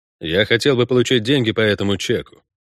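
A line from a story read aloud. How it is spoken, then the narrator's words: Dry. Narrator (Russian): сухо проговорил Геральт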